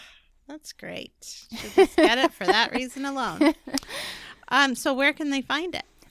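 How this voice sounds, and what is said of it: Usual voice. Nothing is said of it.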